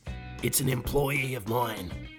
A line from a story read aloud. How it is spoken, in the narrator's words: she rasped